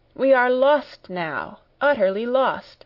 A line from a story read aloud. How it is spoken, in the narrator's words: I cried